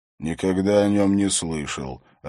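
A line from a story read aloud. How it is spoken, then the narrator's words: Hoarse voice. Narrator (Russian): ответил хриплый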